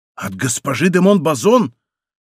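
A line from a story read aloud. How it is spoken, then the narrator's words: Surprised exclamation. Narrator (Russian): Герцог, удивленный еще более, воскликнул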